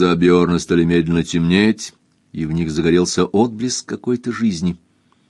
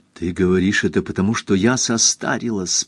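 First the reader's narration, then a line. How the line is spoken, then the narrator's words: Whispered. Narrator (Russian): прошептал Осхильд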